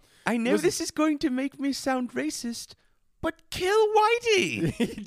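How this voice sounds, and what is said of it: Old lady voice. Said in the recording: “your old lady voice”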